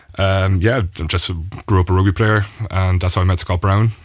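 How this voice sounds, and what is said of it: Irish accent. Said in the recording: “my parents are Irish. That's where the accent comes from”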